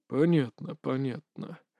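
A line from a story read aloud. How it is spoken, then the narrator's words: Muttered. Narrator (Russian): пробормотал Александр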